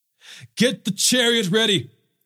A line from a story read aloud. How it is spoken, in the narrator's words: Joram shouted